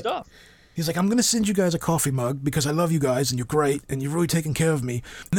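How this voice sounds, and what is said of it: Imitates another person's voice. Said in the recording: “this isn't really the way that I talk because... My accent is nothing like this.”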